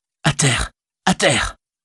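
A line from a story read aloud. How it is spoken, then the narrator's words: Panting. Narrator (French): dit haletant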